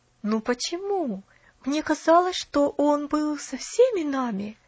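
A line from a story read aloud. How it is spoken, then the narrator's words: Hesitant mutter. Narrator (Russian): нерешительно пробормотала миссис Керри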